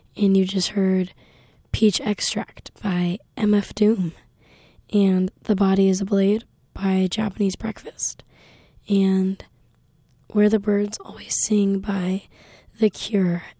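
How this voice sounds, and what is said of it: Strained voice. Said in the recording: “my voice is a bit strained”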